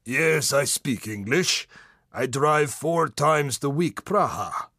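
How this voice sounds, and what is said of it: Raspy voice, very thick accent. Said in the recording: “The voice of a man who's smoked 100,000 cigarettes ... he has a very strange voice and a very thick accent.”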